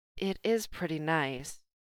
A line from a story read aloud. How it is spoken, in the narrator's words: Jane murmured